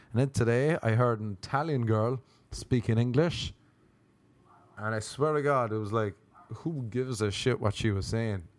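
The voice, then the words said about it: Irish accent. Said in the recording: “he couldn't believe I was from Ireland... people love my accent”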